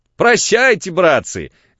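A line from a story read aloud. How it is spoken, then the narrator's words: Shout. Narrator (Russian): крикнул он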